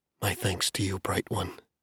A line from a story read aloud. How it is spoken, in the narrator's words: whispered under her breath